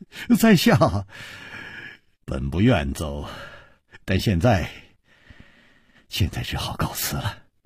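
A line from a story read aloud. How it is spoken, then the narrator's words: Sighing, wry laugh. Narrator (Chinese): 楚留香叹了一口气，苦笑着说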